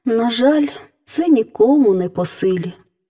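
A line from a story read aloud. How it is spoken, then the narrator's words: Sighing princess. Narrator (Ukrainian): зітхнула королівна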